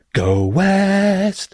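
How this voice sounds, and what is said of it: Bad sung impression of a band. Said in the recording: “That's my very bad impression of village people.”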